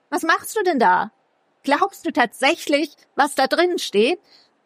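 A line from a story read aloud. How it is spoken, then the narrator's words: Called out. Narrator (German): rief Lexi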